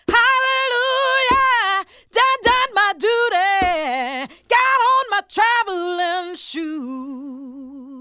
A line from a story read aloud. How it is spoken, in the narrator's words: she shout